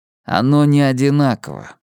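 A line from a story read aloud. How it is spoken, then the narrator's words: Gloomy. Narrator (Russian): мрачно ответил Эдди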